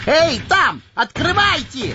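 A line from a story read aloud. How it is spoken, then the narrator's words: Yelling. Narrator (Russian): орал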